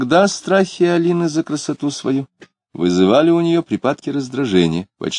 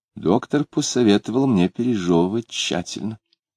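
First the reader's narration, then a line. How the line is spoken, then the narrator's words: Calm reply. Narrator (Russian): спокойно ответила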